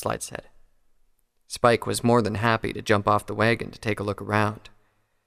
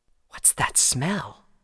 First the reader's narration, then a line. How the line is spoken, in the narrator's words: he asked softly